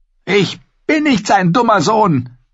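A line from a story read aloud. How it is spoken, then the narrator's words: Angry. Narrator (German): sagte Arya zornig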